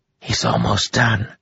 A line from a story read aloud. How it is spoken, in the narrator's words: she hissed